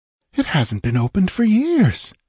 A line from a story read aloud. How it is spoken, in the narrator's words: exclaimed Valeria